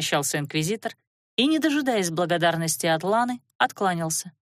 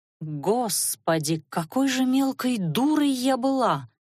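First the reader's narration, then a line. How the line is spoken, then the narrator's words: Inner groan, young woman. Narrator (Russian): мысленно простонала девушка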